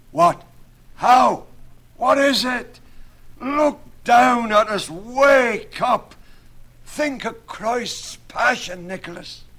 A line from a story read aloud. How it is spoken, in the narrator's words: He was in black despair, cried out rudely